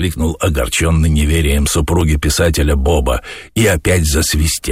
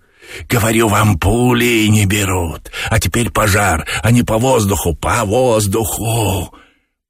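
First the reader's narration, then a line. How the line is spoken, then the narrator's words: Hissing. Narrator (Russian): Боба шипел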